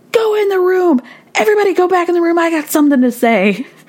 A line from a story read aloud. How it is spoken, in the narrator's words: Michelle is now yelling at everybody